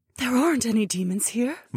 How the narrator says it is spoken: my wife whispered

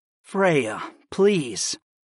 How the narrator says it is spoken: I murmured

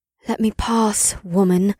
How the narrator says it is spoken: the Red Witch replied with a sigh

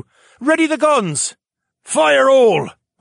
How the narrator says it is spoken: the master gunner yell

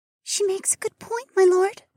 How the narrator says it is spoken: Mariah whispered

